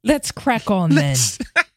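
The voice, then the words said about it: Bad British accent, sounds Australian. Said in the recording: “That was terrible. I didn't even sound British. I sounded Australian. ... That was horrible.”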